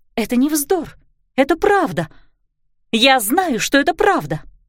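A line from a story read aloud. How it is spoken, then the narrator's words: Exclaimed. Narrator (Russian): воскликнула Клариса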